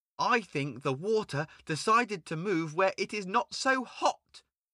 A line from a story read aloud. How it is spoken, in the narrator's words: he exclaimed